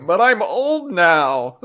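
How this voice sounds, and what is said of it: Imitates a game character's voice. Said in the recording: “Spot on Sabre Man impression.”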